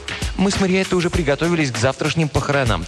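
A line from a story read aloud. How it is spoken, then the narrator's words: Hurried. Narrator (Russian): торопливо добавила она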